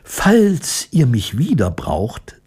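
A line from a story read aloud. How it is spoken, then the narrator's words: Plain. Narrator (German): sagte Ramina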